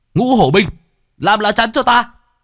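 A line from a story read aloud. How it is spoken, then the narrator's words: Desperate shouting. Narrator (Vietnamese): Bạch Hổ hai tay bị đánh cho tê dại, thậm chí đã có lúc muốn buông xuôi, liền hét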